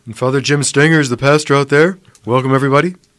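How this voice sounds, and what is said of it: Imitates another person's voice. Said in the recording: “my best Stanger impersonation.”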